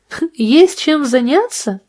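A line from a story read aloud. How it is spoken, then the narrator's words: Laughing. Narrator (Russian): рассмеялась Джулия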